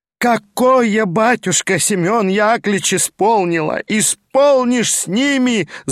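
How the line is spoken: Wailing widow. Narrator (Russian): завопила вдова

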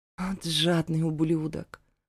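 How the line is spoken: Grimacing, through clenched teeth. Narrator (Russian): Скривившись, процедила я

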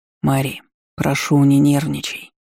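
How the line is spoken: Gentle soft voice. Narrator (Russian): мягко добавил дракон

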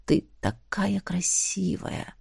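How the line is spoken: Whisper. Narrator (Russian): прошептал Эш

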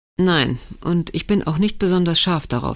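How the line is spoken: Dry remark. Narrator (German): sagte er trocken

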